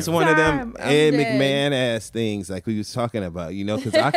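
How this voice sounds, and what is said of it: Usual voice. Nothing is said of it.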